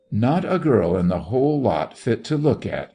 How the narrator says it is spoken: he exclaimed with peevish boredom

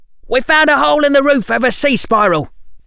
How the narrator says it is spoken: Someone shouted from the doorway

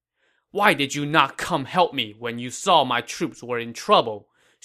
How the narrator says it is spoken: Xu Huang said angrily

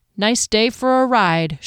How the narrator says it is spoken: she said flatly as she acknowledged she'd been duped

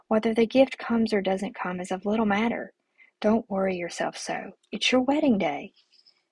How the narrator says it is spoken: whispered against my ear

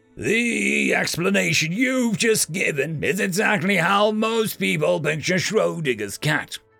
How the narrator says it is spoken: the professor practically shouting to his lecture hall

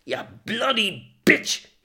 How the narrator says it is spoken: yelled

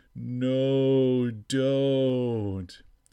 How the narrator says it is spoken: The voice responded, still moaning

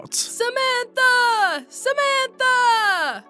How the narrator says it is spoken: Suddenly, the Lord called out

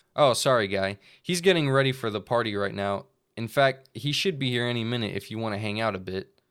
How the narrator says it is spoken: the bug said calmly

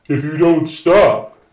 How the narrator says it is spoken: he called out

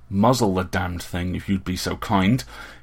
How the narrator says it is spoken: he snapped

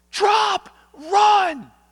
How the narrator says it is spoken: he yelled out

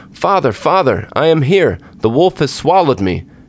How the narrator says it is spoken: Tom cried out

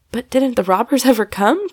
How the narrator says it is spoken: cried Tom, enjoying the joke, but feeling defrauded of the fight

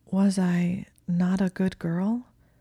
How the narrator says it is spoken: said slowly

